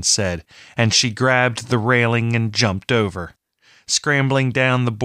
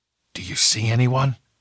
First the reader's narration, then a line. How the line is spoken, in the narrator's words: Farsi asked in a whisper